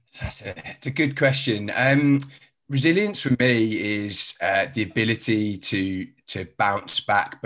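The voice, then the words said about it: Mixed English regional accent. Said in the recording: “I was originally from Birmingham, so I haven't got a London accent. I've got a bit of a strange accent.”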